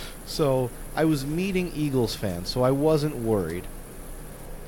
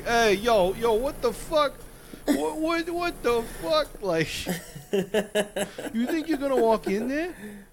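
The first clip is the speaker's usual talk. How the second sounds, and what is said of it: Weak put-on Philadelphia accent. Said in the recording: “I don't know if this is a good Philly. It's not a good Philly impression”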